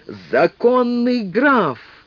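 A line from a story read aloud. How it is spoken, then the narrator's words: Peasant shouting. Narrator (Russian): кто-то из крестьян крикнул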